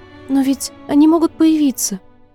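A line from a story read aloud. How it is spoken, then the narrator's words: Frightened. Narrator (Russian): испуганно продолжила мисс Флора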